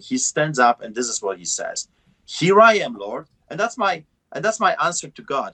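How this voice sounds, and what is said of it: Heavy non-native accent, broken English. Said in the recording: “I speak broken English with a heavy accent.”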